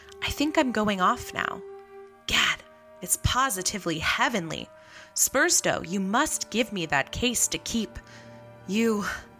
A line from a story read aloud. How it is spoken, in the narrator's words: he whispered